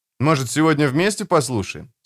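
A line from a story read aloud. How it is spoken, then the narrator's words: Plain. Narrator (Russian): спросил я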